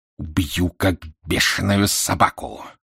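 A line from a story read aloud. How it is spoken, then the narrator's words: Hissing. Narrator (Russian): прошипел британец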